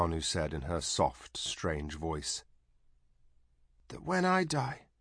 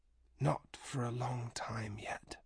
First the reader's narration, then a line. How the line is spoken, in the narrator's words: she whispered